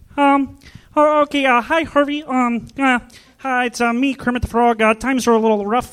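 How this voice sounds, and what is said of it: Kermit the Frog voice impression. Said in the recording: “do a little impression for you guys. This is my impression of Kermit the Frog”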